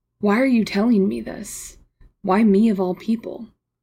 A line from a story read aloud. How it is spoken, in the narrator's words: Marcus sighed